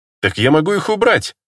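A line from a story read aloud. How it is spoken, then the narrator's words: Radiant laugh. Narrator (Russian): лучезарно рассмеялась Лания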